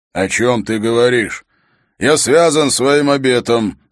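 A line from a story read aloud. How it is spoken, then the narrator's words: Grumbling mutter. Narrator (Russian): пробурчал обер-ярл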